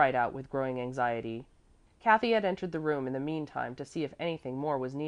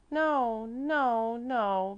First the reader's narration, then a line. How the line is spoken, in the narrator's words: moaned again in such sorrowful tones as no one had ever heard from the energetic little child